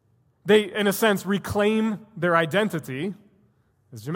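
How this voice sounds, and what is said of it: Usual voice. Nothing is said of it.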